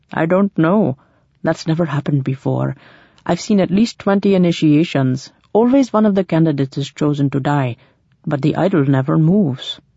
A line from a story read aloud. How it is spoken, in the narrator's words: grinned feebly, said